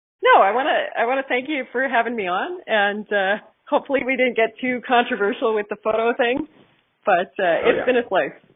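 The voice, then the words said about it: Slight Canadian accent. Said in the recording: “your amazing Canadian accent, even though you probably have one that's a little less distinct than some other Canadians. It's just a little, still just a little bit there”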